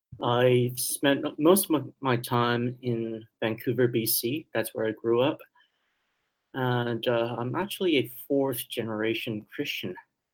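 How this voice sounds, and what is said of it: Slight accent here and there. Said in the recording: “I was born in Taiwan ... when you hear me talk, you can still hear a little accent here and there”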